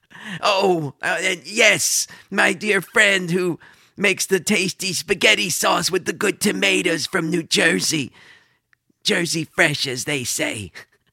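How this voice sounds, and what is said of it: Comedic character voice impression. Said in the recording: “I still got it with my Sol Rosenberg impression.”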